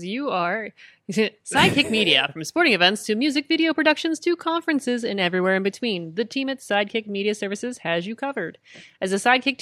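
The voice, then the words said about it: Commercial announcer voice. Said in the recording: “do my commercial voice”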